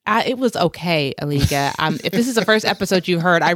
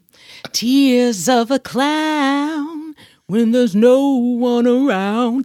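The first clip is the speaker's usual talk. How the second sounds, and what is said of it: Poorly sung imitation of another person's voice. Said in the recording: “That was a horrible Smokey Robinson impersonation. It was horrible. ... I really can't sing better than that.”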